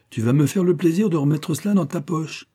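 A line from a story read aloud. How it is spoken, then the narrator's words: Exclaimed. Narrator (French): s'écria-t-elle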